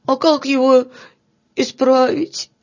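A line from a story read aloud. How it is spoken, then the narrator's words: Sobbing question. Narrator (Russian): спросил всхлипывая Филька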